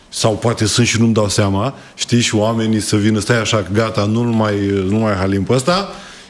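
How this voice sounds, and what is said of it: Slight Moldovan-tinged Romanian accent. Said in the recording (Romanian): “Ți-ai păstrat accentul, n-a plecat cu totul. ... Și este un farmec ... asta cu accentul în Buzău ... partea Moldovei ... avem o leacă”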